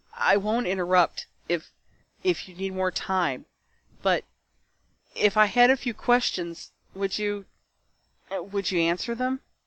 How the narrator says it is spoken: she choked out

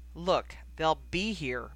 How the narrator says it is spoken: Bill said tightly

